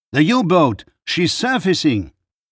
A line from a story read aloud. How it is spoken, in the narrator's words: someone shouted